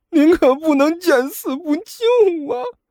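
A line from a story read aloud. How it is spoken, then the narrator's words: Tearful voice. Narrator (Chinese): 阿巴的声音都带上了哭腔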